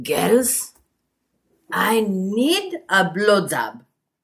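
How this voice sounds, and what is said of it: Greek accent. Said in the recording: “Are you going to do the accent? ... I'll do the accent. ... And Greek.”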